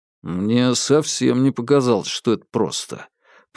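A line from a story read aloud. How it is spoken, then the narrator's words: Grumbling. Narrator (Russian): проворчал Бабкин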